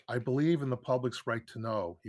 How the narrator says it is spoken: he once said

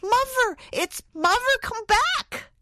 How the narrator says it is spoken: shouted a happy voice

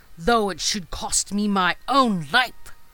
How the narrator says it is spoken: she cried

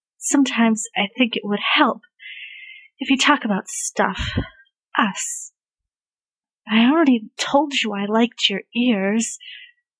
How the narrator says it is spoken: groaned

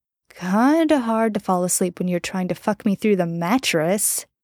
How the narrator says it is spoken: Jensen muttered

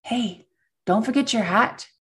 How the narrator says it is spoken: whisper

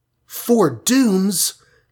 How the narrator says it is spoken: gasped the Wasp

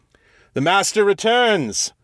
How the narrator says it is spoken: shouted

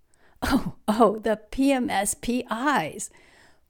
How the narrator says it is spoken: Polly chuckled, and then in a crescendo that resulted in tears running down her cheeks, she continued in a gale of laughter

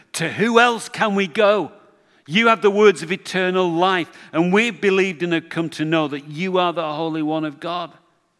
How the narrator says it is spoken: Peter blurts out

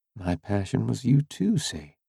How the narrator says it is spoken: she said quietly

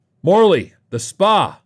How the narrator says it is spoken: bellowed

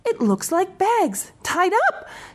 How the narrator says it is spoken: cried

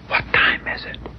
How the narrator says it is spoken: whispered

